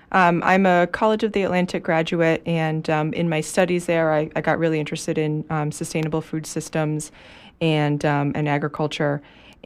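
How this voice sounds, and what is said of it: Unwell voice, occasional coughing. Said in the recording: “excuse my voice and the occasional coughing. I'm a little under the weather today”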